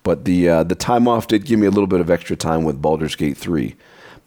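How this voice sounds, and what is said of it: Rough, congested voice. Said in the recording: “I sound a little rough ... Ah, sinuses ... I'll just cough my way into my grave.”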